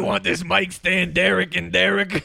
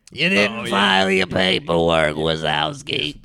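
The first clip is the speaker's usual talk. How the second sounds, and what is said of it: Impression of Roz from Monsters, Inc. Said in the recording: “I imagined Roz from Monsters, Inc. ... That was impressive.”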